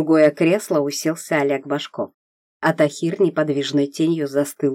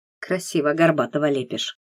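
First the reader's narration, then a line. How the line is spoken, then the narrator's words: Muttered grumble. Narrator (Russian): проворчал Савичев себе под нос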